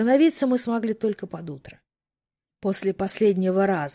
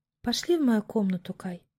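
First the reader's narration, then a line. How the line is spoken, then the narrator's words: Muttered with heavy sigh. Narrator (Russian): С тяжелым вздохом пробормотала Иви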